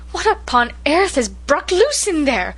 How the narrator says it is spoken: gasped Cousin Sophia

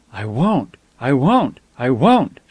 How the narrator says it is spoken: she gasped

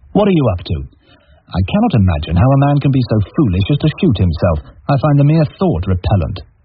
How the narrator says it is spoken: retorted impatiently

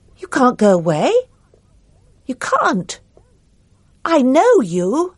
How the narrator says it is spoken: He heard himself say loudly

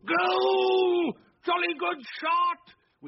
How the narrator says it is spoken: Wilkins, as excited as the youngest of them, shouted

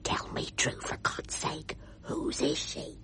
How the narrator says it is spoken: I heard him whisper

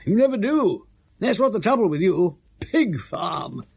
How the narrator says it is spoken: said Lord Emsworth vehemently, his voice soaring into the upper register

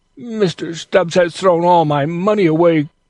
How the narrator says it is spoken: cried Toby

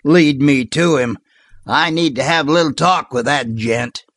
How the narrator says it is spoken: growled Sliver Waldron

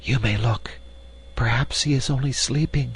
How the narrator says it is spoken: softly calling to Gretel, she added in a whisper

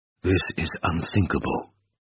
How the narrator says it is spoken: whispered Slepsov

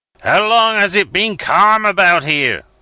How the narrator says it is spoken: roared the captain of the Java, as I came within hail of him

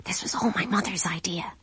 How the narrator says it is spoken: she hissed at him

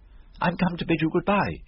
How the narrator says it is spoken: he cried

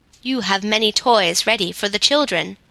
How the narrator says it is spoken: said the woodsman

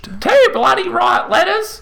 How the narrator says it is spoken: she shrieked back

